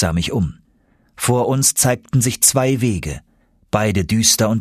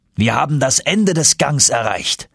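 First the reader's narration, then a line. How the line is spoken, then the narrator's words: Uncle exclaiming. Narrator (German): rief mein Onkel aus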